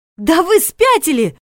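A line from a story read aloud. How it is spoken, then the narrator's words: Yelling. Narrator (Russian): заорала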